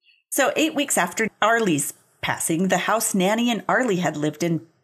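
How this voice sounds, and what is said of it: Usual voice. Nothing is said of it.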